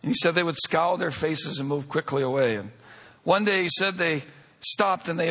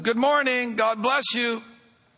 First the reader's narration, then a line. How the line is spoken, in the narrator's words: I started yelling out to them